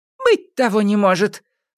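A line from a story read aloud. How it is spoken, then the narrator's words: Surprised exclamation. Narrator (Russian): воскликнула удивленная Кикимора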